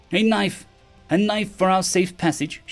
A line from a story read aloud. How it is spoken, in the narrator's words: croaked